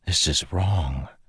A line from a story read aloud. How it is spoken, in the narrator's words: Kaladin whispered to Syl